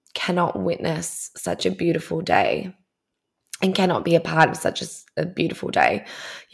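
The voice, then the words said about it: Emotional, moved voice. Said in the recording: “You can totally tell that I'm getting emotional.”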